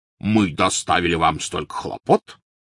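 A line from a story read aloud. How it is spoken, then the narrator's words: Resonant bass voice. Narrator (Russian): звучным басом произнес он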